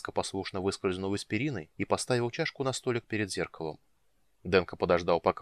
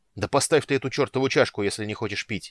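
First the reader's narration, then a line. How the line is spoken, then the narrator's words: Barking shout. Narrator (Russian): рявкнул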